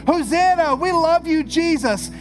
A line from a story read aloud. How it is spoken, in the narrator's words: here are screaming